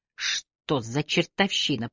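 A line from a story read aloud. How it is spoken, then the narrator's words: Through clenched teeth. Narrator (Russian): процедила она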